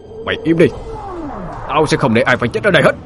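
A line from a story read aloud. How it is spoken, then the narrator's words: Shouting. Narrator (Vietnamese): Anh hét lên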